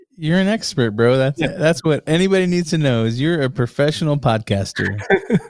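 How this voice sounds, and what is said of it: Deep radio-style podcast voice. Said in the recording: “are you for real with that radio voice? ... I got my podcasting voice. You gotta really dig into the mic there and get that voice going ... you got the perfect podcast voice”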